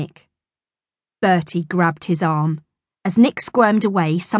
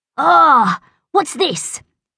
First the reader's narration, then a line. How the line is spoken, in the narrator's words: cried